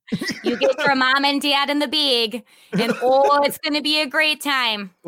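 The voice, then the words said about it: Exaggerated Wisconsin accent. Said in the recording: “the Wisconsin accent is very cute ... making fun of them”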